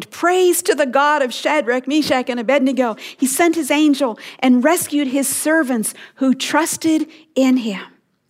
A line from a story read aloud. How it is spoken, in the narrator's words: Nebuchadnezzar exclaimed